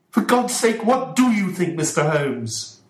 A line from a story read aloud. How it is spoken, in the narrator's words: shouted Mr